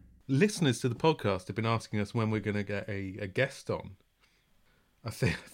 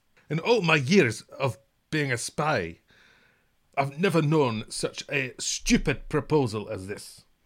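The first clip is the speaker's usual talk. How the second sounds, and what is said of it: Imitates another person's voice. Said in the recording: “terrible impersonation”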